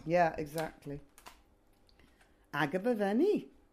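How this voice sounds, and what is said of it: Terrible put-on Welsh accent. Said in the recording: “That's my terrible Welsh accent.”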